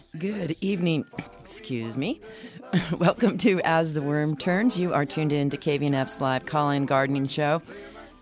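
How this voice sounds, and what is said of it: Raspy voice. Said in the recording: “I'm your raspy voice”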